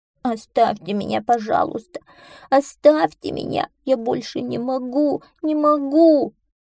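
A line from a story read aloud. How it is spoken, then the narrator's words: Breathless whimpering. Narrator (Russian): Задохнувшись от быстрого бега, он хныкал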